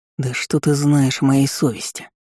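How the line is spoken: Quiet growl. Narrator (Russian): Такер тихо прорычал

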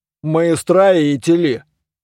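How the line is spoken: Gloomy. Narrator (Russian): мрачно отвечал гном-прораб

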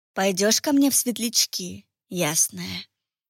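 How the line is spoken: Whisper in two voices, laughing. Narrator (Russian): Шепнул он обоими своими голосами и тут же рассмеялся

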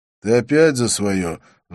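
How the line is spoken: Sighing. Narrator (Russian): вздохнул я

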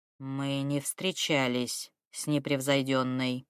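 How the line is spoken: Gloomy. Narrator (Russian): мрачно сообщил Вузелок

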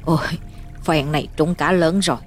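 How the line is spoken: Delighted mumbling man. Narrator (Vietnamese): Ông Báo mừng rơn, miệng lẩm bẩm

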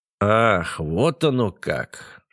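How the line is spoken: Slow speech. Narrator (Russian): медленно промолвил Лукьянов

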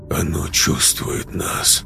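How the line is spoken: Muttered. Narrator (Russian): пробормотал Корф

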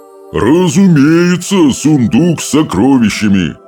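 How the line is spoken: Booming drone. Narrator (Russian): прогудел стоик

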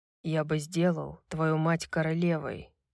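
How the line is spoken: Quiet fatherly voice. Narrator (Russian): тихо сказал отец

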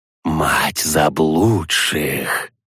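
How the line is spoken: Creaky cockroach-man voice. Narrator (Russian): проскрипел человека-таракан

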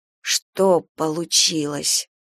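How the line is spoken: Hoarse question. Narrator (Russian): хрипло спросила Галя

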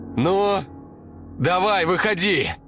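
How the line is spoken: Shouting. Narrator (Russian): Она закричала

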